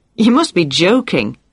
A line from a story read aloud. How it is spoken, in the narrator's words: she exclaimed